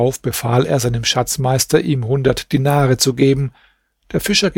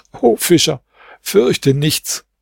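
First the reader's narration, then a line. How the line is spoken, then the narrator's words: Speaking amid helpless laughter. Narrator (German): ward er ohnmächtig vor Lachen und sprach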